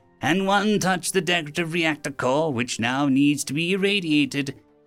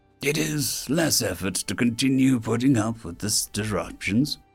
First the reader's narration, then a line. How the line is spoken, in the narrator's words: Senior grumbled